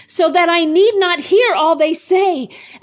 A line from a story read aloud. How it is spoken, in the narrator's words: cried